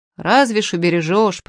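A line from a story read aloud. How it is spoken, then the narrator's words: Old man grumbling. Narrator (Russian): проворчал дед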